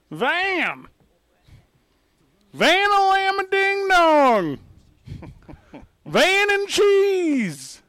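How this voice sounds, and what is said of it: Imitates another person's voice. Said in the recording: “do your best mailman impersonation”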